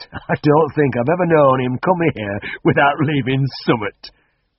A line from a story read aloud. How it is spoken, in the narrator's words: chuckled the farmer